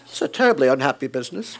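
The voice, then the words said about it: Put-on British accent. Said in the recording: “sounds so British”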